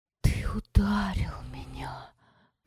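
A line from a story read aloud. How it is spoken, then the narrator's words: Delighted whisper. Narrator (Russian): прошептала она в восторге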